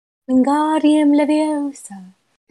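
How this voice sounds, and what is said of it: Put-on accent, well done. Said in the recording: “That's a good accent.”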